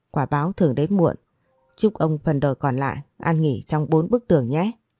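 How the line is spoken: Harsh. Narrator (Vietnamese): Tôi gằn giọng nói

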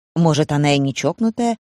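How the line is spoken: Gentle objection. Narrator (Russian): мягко возразил редактор Рой Дрейк

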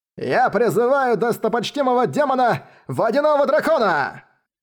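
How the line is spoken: Young man screaming madly. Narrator (Russian): безумно закричал молодой человек

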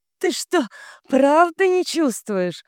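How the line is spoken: Said after laughing. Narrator (Russian): проговорила, отсмеявшись

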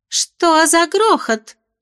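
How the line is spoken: Shrill voice from above. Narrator (Russian): раздался сверху визгливый голос невесты дракона

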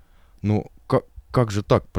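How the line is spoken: Babbling. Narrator (Russian): пролепетал Матвей Аполлоныч

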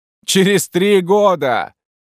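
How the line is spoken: Roared. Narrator (Russian): проревел он

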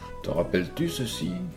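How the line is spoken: Plain. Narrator (French): demanda

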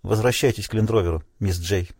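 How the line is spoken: Plain. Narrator (Russian): сказал Тимон Дебби

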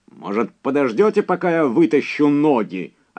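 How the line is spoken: Snapped. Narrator (Russian): огрызнулся Эдди Делгардо

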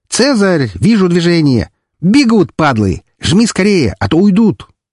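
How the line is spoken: Joyful shout. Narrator (Russian): Валькирия, радостно закричала

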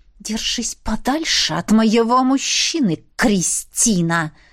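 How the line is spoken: Young woman hissing. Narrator (Russian): прошипела девица

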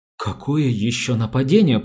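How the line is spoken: Stammering. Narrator (Russian): проговорила она, запинаясь

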